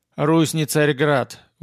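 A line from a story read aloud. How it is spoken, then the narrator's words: Tired objection. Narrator (Russian): возразил Ярополк устало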